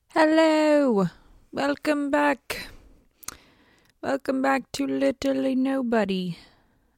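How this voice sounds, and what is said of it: Odd put-on accent. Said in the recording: “I do not know what kind of accent that is”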